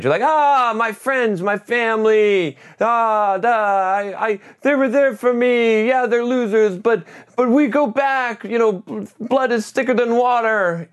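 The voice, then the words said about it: Mocking whiny voice. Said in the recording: “I don't know why I got to do it in that voice, but it's my whiny voice.”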